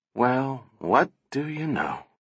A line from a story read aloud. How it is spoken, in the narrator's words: Donovan said softly